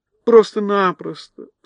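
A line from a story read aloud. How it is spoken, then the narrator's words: Tearful exclamation. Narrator (Russian): со слезами на глазах воскликнула Элли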